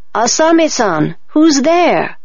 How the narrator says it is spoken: a voice called out

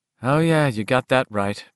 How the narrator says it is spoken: Beverly says flatly

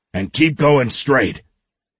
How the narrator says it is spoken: he shouted

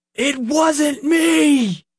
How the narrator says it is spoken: Nick shouted again

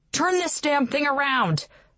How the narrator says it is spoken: yelled

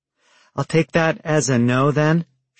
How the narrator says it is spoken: she said, sighing

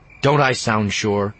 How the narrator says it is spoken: Jason snapped

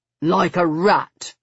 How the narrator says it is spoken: he said grimly

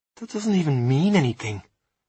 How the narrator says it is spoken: I said quietly

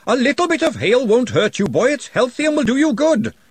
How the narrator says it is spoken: the referee screaming

